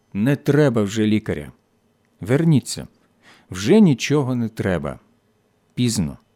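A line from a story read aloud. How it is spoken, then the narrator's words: Quiet. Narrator (Ukrainian): Німець тихо сказав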